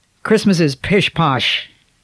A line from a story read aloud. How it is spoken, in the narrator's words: said Jonathan gruffly